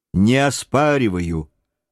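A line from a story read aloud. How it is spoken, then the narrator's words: Calm reply. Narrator (Russian): спокойно отозвался боцман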